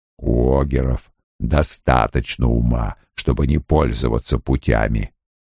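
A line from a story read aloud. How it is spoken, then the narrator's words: Grumbling. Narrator (Russian): пробурчал Лоэл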